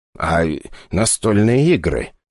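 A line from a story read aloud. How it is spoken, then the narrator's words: Quiet question. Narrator (Russian): тихо поинтересовался Игорь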